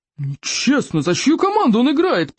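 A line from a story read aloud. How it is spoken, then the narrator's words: Roared. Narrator (Russian): проревел стойк обширный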